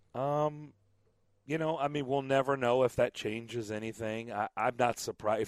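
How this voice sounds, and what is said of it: Slightly raspy, hoarse voice. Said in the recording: “I apologize for my voice. I did a lot of yelling at baseball games this weekend, so I'm a little raspy. ... I barely have a voice,”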